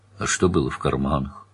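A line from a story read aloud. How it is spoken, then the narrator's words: Quiet question. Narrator (Russian): также негромко спросил Данил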